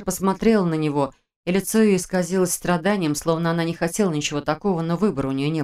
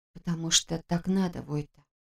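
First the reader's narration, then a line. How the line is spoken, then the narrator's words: Quiet. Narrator (Russian): тихо сказала она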